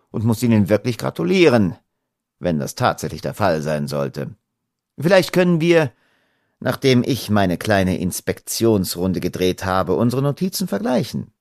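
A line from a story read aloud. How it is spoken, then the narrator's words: Dry. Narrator (German): sagte Holmes trocken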